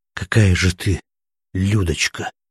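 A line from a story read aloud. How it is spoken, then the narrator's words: Admiring breathless exhale. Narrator (Russian): восхищенно выдохнул Смирнов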